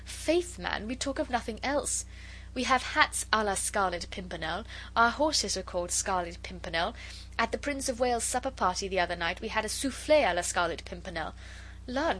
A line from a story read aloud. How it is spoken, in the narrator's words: she added gaily